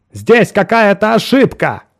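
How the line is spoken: Still yelling. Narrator (Russian): по-прежнему орал Браун

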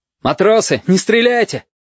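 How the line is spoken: Shout. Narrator (Russian): крикнул Бенецкий

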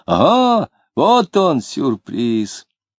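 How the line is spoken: Cheerful shout. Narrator (Russian): весело крикнул

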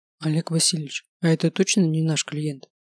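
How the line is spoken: Whisper. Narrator (Russian): шепнул Климов

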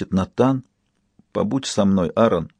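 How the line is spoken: Soft whisper. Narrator (Russian): Аарон тихо шепчет

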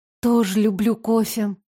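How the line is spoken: Sad sigh. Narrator (Russian): с грустью вздохнула я

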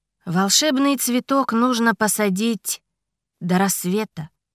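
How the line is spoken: Calm. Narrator (Russian): спокойно ответил Ричард

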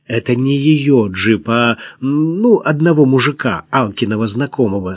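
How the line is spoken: Through gritted teeth. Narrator (Russian): сквозь зубы объяснила Кира

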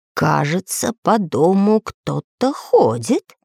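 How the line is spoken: Sleepy quiet whisper. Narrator (Russian): сонно протирая глаза, тихо прошептал Самоделкин

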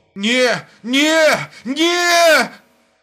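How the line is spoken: Hoarse shout. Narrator (Russian): Хрипло закричал он

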